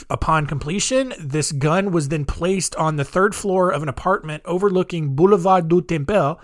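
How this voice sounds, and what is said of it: Put-on French accent. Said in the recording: “That was a pretty solid French accent”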